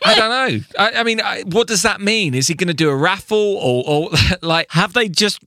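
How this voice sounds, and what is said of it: Usual voice. Nothing is said of it.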